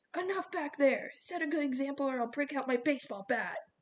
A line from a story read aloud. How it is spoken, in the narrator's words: Coach Hedge barked